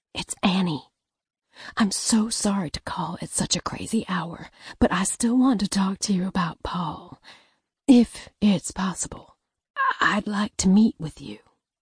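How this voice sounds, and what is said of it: Near whisper, low voice. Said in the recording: “Her voice was a near whisper, lower than last time.”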